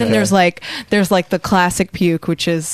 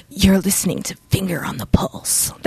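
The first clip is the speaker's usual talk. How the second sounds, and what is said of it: Overdone edgy radio DJ voice. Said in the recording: “Your radio voice, your professional radio voice? ... the official term is called puking. So when you are over, you know, overdoing it on the air, it's called puking ... edgy puke”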